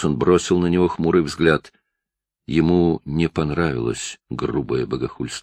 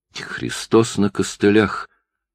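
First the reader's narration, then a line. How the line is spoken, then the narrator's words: Barely audible. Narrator (Russian): чуть слышно проговорил Салзбери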